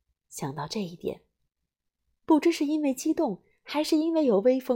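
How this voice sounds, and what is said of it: Usual voice. Nothing is said of it.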